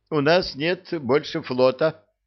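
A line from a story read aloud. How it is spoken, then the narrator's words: Horrified moaning. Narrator (Russian): Простонал вестовой в ужасе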